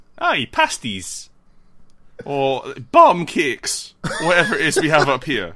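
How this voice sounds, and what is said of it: Bad put-on Geordie accent. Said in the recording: “I wouldn't break out my Geordie in Newcastle. My Geordie is bad.”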